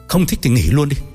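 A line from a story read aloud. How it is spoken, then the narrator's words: Snapping irritably. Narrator (Vietnamese): Hoàng Cảnh sẵn trớn gắt lên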